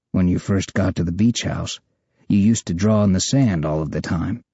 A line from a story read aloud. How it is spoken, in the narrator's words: he says in his calm, smooth voice